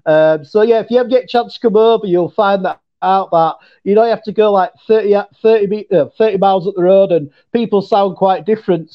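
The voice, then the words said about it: Mixed English and Yorkshire accent. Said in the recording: “mine's like a mixture between, obviously, an English accent, and I've got my local Yorkshire accent ... I've not got a posh English accent ... I've got a commoner Northern accent”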